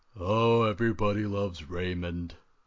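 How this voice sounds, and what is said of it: Robert Barone impression. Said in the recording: “Robert Barone Im- impersonation.”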